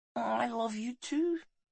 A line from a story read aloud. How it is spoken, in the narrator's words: she whispered